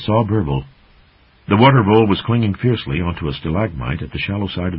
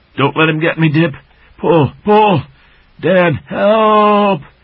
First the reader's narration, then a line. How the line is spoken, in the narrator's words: shrieked